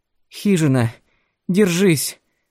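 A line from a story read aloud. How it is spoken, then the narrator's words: Boy pleading. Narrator (Russian): взмолился мальчик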